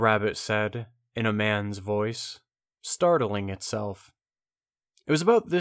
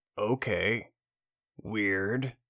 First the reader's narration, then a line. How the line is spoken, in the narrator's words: Chet muttered